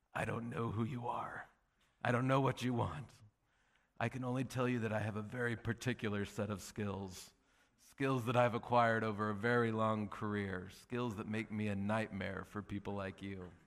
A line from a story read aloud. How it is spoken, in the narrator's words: my father-in-law in his full Liam Neeson voice he says